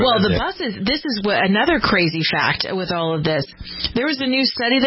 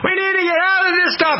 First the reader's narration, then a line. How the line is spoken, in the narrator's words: The people were screaming